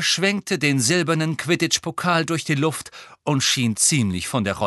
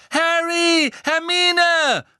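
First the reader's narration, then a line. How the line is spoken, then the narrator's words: Calling out. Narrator (German): rief Ron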